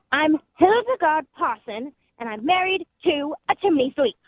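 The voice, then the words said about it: Put-on English accent. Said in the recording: “you didn't do that in an English accent ... Wow, that is perfect.”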